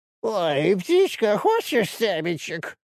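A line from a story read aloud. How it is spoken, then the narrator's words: Mocking squeaky voice. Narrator (Russian): Он передразнил писклявым голосом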